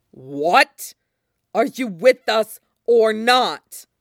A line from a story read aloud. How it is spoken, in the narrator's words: Link repeats through his teeth